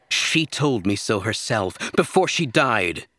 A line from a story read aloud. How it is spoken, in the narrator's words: she snapped